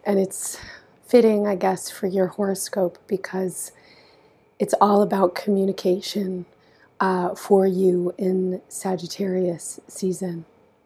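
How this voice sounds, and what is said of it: Raspy, hoarse voice. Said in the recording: “losing my voice. ... So sorry for my raspy tones.”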